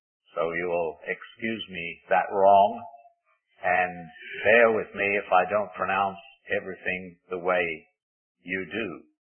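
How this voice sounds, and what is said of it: English accent. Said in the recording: “I originate from England ... I have not been able to lose my accent”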